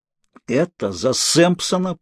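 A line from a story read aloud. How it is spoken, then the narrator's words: Through clenched teeth. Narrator (Russian): процедил я сквозь стиснутые зубы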